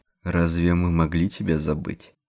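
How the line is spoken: Sad. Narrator (Russian): печально качнул головой

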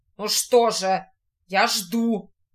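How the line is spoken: Menacing shout. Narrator (Russian): грозно крикнул Диего

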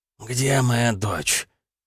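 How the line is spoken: Hoarse, slurred, nasal voice. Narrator (Russian): Шумно хлюпая сломанным носом, тяжело ворочая языком, хриплым, невнятным голосом произнес

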